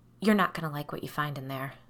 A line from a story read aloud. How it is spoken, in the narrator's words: Claire whispered